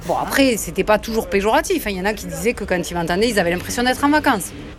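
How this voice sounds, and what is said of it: Southwestern French accent. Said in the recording (French): “moi je suis originaire du sud-ouest ... quelqu'un qui reprend chacune de tes phrases en soulignant ton accent”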